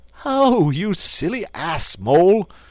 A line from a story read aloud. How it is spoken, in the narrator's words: cried Toad